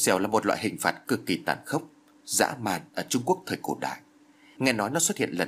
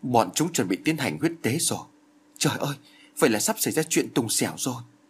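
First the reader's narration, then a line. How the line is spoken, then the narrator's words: Frightened cry, then muttering. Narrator (Vietnamese): Phương Tiên Giao bên cạnh tôi chợt kêu lên một tiếng kinh hãi, rồi khẽ lẩm bẩm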